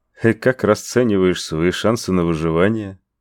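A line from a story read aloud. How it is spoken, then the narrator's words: Mocking question. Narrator (Russian): Насмешливо поинтересовался пришелец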